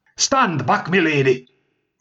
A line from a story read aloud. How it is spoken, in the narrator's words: shouted, as we heaved on this piece of furniture